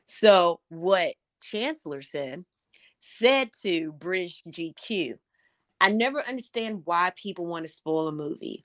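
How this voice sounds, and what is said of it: Southern American accent. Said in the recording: “my Southern dialect will jack up a name”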